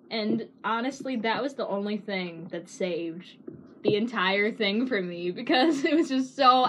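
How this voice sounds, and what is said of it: Usual voice. Nothing is said of it.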